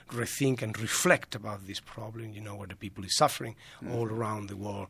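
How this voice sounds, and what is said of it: Strong Spanish accent. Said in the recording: “I still have a very strong accent, which will never be corrected ... your muscles are made for Spanish”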